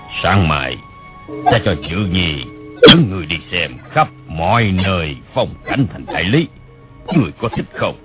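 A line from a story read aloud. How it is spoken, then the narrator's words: Smiling speech. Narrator (Vietnamese): Bảo Định Đế mỉm cười nói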